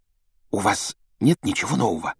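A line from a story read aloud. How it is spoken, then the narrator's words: Secretive whisper. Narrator (Russian): добавила она шепотом, чтобы не услышала мадам Помфри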